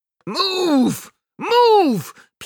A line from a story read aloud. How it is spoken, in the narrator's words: people shout